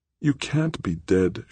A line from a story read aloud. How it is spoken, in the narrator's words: she pleaded with him